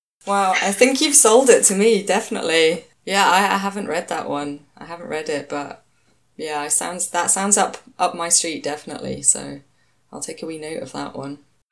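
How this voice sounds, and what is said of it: Strong regional accent. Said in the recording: “my accent is honestly, it's indecipherable, I think, sometimes ... It's charming.”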